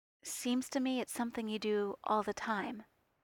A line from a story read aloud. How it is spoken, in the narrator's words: Steve said, his voice very soft